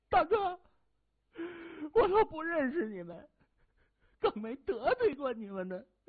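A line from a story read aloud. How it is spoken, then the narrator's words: Wailing. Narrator (Chinese): 喷火仔双腿发软，冲着谢文东哭嚎着说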